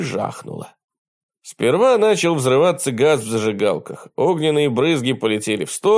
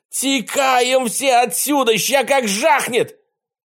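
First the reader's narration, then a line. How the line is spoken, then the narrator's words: Fearful yelling. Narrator (Russian): От страха он заорал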